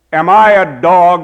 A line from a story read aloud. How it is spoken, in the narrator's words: he roared at David